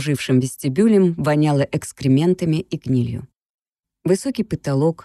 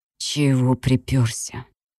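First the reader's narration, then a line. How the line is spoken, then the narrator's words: Hissing, heavy accent. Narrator (Russian): прошипел с сильным акцентом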